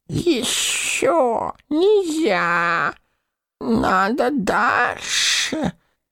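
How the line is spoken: Hissed. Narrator (Russian): прошипел он

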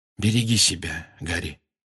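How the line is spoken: Quiet. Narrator (Russian): негромко сказал Люпин

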